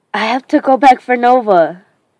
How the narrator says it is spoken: I shout

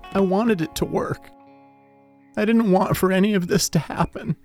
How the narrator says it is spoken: wailed

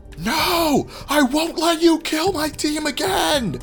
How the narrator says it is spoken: screaming, horrified, blood-curdling, rage-filled nonsense

